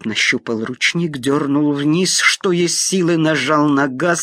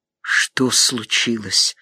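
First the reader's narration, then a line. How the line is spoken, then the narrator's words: Hoarse mutter. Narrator (Russian): хрипло пробормотал Осип Савельич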